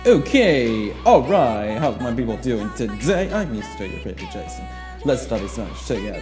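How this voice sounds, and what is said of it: Weird put-on accent. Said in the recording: “Sorry about being a weird accent. I'm just trying”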